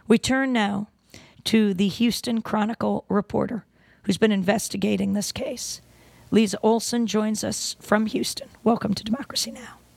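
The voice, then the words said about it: Hoarse voice from laryngitis. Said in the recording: “sorry for my laryngitis.”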